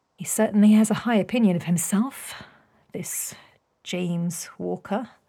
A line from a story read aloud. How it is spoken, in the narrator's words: Beatrix murmured